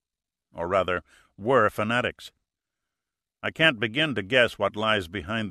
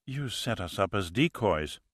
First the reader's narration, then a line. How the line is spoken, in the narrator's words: muttered Marquez